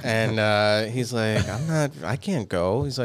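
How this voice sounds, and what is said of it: Usual voice. Nothing is said of it.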